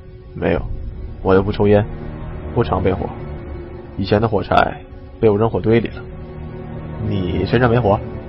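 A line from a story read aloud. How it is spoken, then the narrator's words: Low voice. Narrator (Chinese): 低声回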